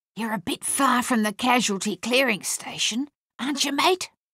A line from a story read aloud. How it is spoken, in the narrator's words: an Australian sentry whispered